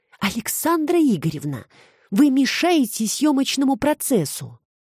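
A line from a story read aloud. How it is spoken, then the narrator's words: Whisper in ear. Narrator (Russian): зашептал ей на ухо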